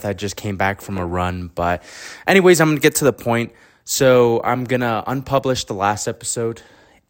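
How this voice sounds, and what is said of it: Out of breath. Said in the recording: “Sorry if I sound a little out of breath.”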